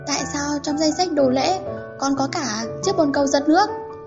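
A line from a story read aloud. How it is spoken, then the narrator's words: Trembling voice. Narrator (Vietnamese): giọng nói run run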